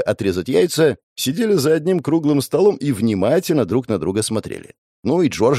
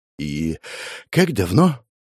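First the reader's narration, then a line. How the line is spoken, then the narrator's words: Sighing. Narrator (Russian): вздохнул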